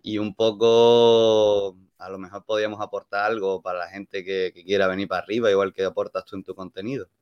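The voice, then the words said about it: Andalusian accent mixed with Canarian. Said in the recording (Spanish): “por tu acento, tío, ¿de dónde eres? ... Yo soy andaluz, yo vengo de Málaga ... me fui a vivir a Las Palmas tres años, entonces tengo una mezcla”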